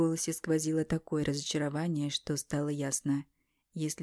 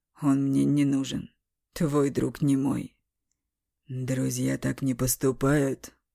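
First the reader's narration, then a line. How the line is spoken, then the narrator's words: Through gritted teeth. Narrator (Russian): Сквозь зубы процедил Бестужев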